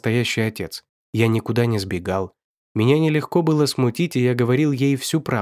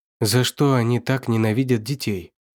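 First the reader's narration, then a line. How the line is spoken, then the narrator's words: Plain question. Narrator (Russian): спросила она однажды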